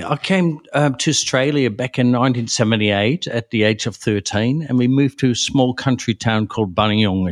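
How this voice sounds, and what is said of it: Non-native English accent. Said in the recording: “I can hear from your accent today as well”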